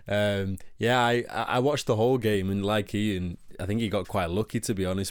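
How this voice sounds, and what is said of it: Silky Manchester accent. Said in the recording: “the silky tones of ... my Manchester accent silky”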